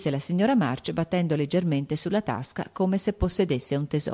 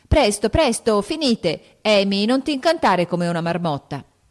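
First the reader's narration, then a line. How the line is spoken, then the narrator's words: Choking shout. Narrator (Italian): gridò Joe mentre che il tè, andatole attraverso, quasi la soffocava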